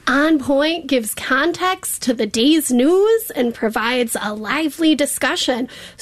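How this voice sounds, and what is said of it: Milwaukee accent. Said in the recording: “that was my Milwaukee accent coming out, born and raised there”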